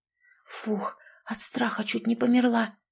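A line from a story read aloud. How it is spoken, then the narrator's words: Whisper. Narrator (Russian): прошептала Маруся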